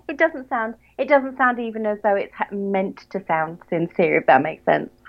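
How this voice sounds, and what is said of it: Southern English accent, nasal. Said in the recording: “that's the British tone of voice all over ... an English accent, especially a Southern English accent. We all sound as though we're speaking through our noses”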